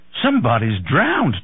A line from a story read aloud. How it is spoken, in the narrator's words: Tom cried